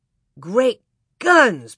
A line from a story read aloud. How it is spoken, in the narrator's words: Pa exclaimed sleepily